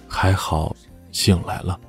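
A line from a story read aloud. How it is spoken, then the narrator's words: Sighing. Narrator (Chinese): 他叹了口气说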